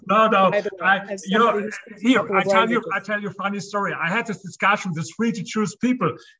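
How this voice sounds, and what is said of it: German accent in English. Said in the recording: “you have this German accent ... It sounds very debonair to these American ears”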